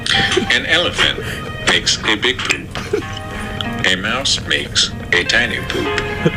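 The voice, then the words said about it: Morgan Freeman impression. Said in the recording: “my Morgan Freeman impression”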